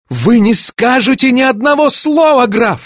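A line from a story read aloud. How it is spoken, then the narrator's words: Shouting. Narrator (Russian): закричала я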